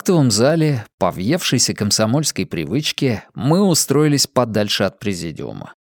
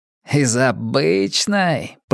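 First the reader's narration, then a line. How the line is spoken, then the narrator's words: Drawling. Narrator (Russian): протянул Гальперин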